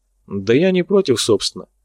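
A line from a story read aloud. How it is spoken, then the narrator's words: Calm. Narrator (Russian): спокойно сказал я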